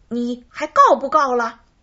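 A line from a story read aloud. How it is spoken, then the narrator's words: Loud question. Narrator (Chinese): 哪吒大声问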